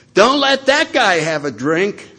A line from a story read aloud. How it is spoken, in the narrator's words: He yells from the other side of the room